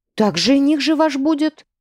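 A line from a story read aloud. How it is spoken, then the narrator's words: Artless exclamation. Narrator (Russian): бесхитростно воскликнула Цветана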